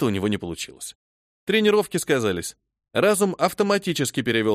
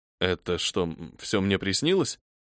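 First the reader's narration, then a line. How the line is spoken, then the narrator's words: Uncertain mumble. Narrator (Russian): Неуверенно пробормотал игрок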